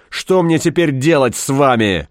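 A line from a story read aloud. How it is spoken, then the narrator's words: Bark. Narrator (Russian): гаркнул он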